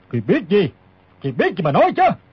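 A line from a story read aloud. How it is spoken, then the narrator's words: Old man's shouted question. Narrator (Vietnamese): Lão quát hỏi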